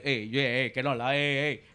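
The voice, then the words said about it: Unintimidating Portuguese impression voice. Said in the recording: “your Portuguese impersonation ... that's the least intimidating thing coming from you”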